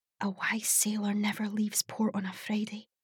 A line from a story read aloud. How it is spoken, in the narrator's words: whispered